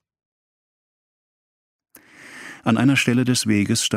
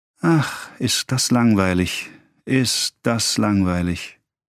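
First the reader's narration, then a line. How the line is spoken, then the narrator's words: Sigh. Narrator (German): seufzte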